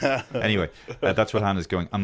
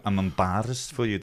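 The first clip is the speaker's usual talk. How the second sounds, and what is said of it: Put-on Scottish accent. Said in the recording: “That's her Scottish accent.”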